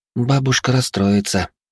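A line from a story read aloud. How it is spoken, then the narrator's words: Crushed, tearful tone. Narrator (Russian): убитым тоном проговорила Альвия, а из ее глаз потекли слезинки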